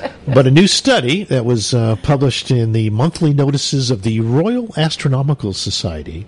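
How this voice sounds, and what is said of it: Usual voice. Nothing is said of it.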